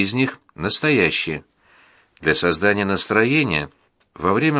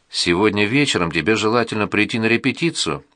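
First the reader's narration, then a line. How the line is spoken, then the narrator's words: Plain. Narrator (Russian): сказал мне учитель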